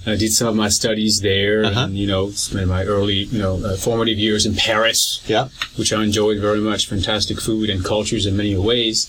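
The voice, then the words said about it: French accent in English. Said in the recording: “People have already picked up from your accent that you're not from these parts originally ... I used to be French, you know, born and raised in France”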